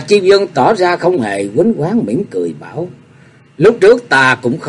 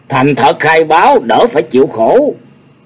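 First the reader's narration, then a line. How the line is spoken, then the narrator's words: Shouting. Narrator (Vietnamese): Y hét lên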